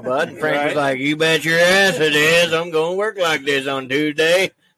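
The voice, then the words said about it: Put-on redneck accent. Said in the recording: “you sound just like a redneck.”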